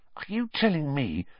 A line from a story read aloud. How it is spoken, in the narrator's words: Harry whispered